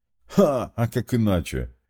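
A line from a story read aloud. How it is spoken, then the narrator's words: Tank laughing. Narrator (Russian): рассмеялся танк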